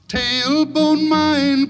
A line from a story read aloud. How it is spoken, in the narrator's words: cried Billy Barlow